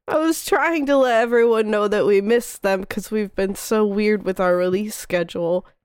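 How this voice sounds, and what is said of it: Congested voice. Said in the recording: “I sound a little congested ... Congested ... who is congested”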